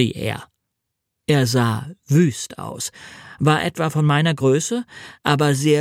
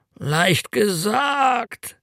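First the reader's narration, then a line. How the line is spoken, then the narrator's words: Groaning. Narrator (German): stöhnte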